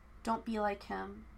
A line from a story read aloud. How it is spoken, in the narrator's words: he said quietly